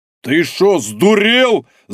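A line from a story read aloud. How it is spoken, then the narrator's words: Shocked yelling. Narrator (Russian): заорал потрясенный Дубовой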